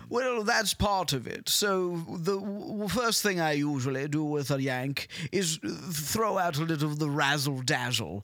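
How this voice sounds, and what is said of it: British accent. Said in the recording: “you sound super smart. I'm sure this is great audio, like the British stuff ... I'll hit them with my accent”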